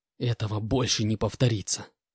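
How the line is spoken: Hiss. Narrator (Russian): прошипел

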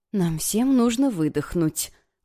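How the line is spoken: Gentle, affectionate. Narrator (Russian): ласково произнесла она

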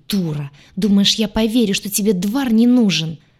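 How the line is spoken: Venomous hiss. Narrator (Russian): зашипела Айя, похлеще любой змеюки

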